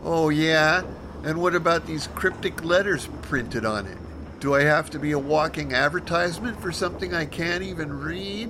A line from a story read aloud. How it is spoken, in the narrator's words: she whined